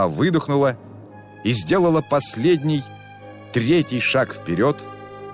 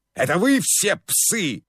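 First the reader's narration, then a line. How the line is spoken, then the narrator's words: Furious shout. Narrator (Russian): закричал в бешенстве Зобов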